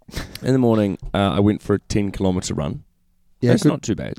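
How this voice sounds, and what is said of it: Slightly croaky, tired voice. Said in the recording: “As you can probably hear by my voice, it's a little croaky. I'm okay, though. I'm just tired.”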